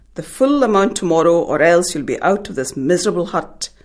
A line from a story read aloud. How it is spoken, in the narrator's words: he roared